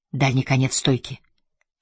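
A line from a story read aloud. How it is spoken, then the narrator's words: Whispered. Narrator (Russian): шепнул он Лоне Кер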